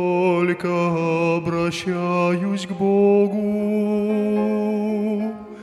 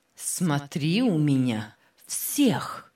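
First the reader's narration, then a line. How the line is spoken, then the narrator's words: Stern command. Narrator (Russian): строго наказывал Паисий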